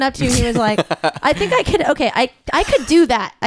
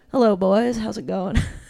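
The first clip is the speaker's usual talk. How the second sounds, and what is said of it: Imitates a guy's greeting voice. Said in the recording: “I feel like this is my impression of a guy saying hello, boys.”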